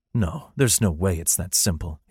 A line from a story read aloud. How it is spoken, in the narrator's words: he muttered